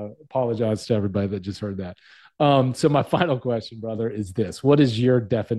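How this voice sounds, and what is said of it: Usual voice. Nothing is said of it.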